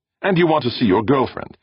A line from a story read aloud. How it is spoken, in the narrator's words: Brandon snapped